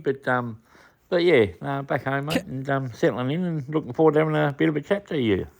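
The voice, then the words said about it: Croaky, rough voice. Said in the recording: “You can hear my voice is a bit croaky”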